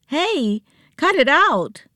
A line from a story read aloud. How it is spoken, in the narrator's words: Joe yelled, staggering a little